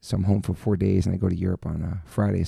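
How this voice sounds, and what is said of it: Slightly raspy voice. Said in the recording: “my voice kind of a little raspy.”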